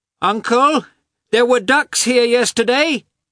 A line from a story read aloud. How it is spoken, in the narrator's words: he shouted, following Levin from afar